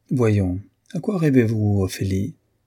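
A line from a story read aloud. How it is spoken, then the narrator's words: Teasing, cheerful. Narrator (French): Il s'amusait à la railler, lui disant gaiement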